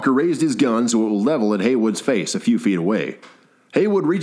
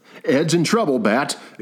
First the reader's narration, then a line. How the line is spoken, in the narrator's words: exclaimed Haywood